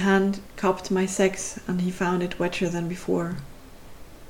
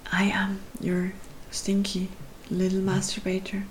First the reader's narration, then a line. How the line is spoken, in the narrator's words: whispered, cheeks on fire